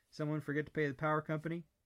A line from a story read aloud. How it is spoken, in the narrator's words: laughed